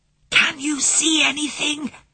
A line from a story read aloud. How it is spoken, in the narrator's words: he whispered as loudly as he dared